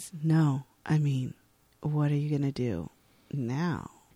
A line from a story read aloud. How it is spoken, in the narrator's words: He says huskily